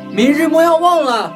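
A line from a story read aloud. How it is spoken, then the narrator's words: Shouting. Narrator (Chinese): 回头对黄衣女子喊道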